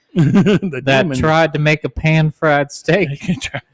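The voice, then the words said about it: Put-on southern American accent. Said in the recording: “I don't know why I have a southern accent.”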